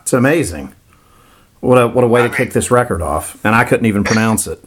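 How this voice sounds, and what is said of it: Florida accent. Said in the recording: “my Florida accent butchering stuff”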